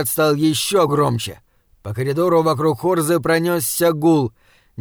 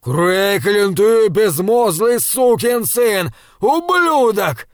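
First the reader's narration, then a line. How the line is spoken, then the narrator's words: Yelling. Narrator (Russian): вопил Лам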